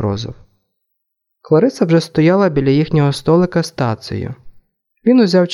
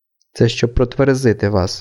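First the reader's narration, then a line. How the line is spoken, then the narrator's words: Calm. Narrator (Ukrainian): спокійно сказав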